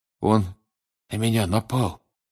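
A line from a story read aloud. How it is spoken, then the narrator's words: Weak voice. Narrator (Russian): слабым голосом проговорил Крам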